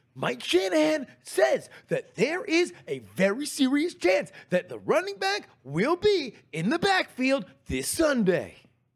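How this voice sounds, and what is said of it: Breathless sports news reporter voice. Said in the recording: “he always has a very breathless tone ... how good that impression was ... fucking 10 out of 10”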